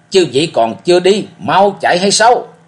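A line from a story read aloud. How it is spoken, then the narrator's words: Loud roar. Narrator (Vietnamese): gầm lớn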